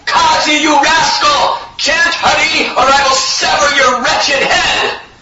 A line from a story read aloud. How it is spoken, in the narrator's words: Gadadhar Das was continuously screaming out